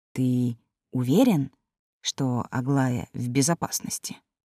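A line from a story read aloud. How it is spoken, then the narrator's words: Low-voiced question. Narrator (Russian): спросил вполголоса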